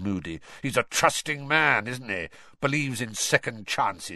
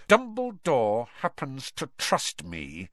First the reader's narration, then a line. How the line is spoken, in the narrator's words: said Snape through clenched teeth